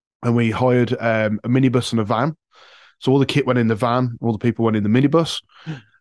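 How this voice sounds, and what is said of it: Midlands English accent. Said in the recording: “I live in the Midlands, if the accent didn't give it away”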